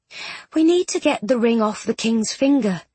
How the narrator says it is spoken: Miss Bronte said

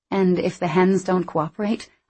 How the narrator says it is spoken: I asked

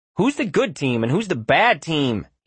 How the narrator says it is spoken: he whined to his father

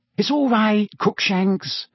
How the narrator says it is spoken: Hermione cooed through the wickerwork

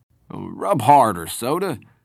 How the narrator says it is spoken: mumbling

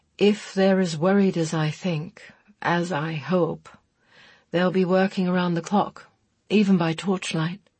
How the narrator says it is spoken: Chris said, sheer exhaustion making his voice toneless

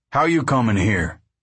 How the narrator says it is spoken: He said harshly

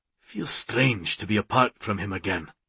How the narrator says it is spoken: In a gruffer tone, he said

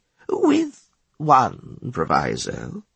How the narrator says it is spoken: Bilohan said slowly

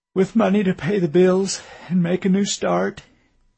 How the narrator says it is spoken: he said, the corners of his mouth quivering downward and his voice cracking

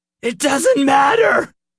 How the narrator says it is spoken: He cried, his voice breaking

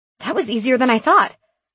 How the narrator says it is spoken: I exclaimed

